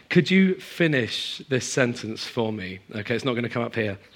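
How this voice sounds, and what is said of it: Partly lost, strained voice. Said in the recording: “I feel like I've kind of like lost my voice halfway at least”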